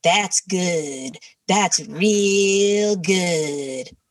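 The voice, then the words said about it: Imitates another person's voice. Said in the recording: “your best celebrity impression? ... That is my only celebrity impression.”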